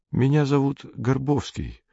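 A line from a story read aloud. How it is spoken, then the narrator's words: Quiet. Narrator (Russian): тихо сказал незнакомец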